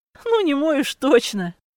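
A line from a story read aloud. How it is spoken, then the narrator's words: Laughing young woman. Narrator (Russian): засмеялась девушка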